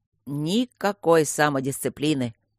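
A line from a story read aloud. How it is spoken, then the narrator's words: Grumbling. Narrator (Russian): бурчало его змейшество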